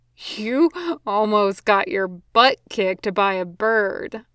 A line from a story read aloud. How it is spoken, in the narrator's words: Ron wheezed out